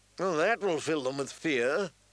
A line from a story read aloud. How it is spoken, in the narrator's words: the Queen said dryly